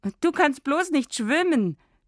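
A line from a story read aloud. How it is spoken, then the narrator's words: Girl mocking. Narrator (German): spottet das Mädchen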